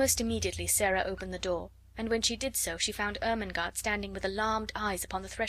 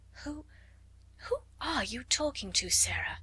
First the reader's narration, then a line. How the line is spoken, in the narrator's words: she gasped out